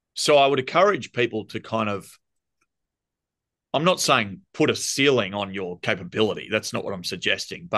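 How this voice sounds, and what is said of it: Thick Australian accent. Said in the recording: “you can hear my thick Australian accent.”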